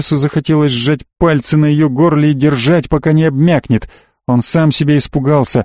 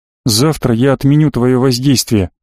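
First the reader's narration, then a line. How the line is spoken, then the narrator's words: Plain. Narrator (Russian): сказал Денис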